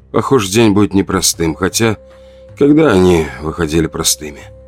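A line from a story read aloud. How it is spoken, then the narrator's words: Weary exhale. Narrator (Russian): выдохнул я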